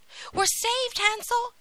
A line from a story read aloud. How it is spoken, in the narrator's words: cried